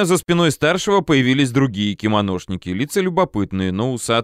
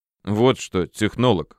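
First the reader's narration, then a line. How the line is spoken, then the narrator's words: Snort, senior man. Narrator (Russian): хмыкнул старший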